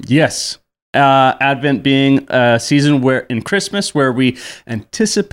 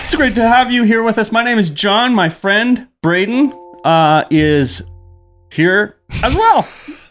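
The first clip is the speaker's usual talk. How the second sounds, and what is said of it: Yelling and talking very fast. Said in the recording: “You're yelling at me, though. And talking very fast.”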